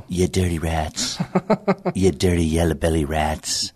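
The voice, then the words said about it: Jimmy Cagney impression. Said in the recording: “my very first impersonation ... doing Jimmy Cagney”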